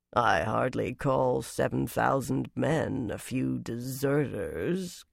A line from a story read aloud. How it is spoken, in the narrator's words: Galgun murmured dryly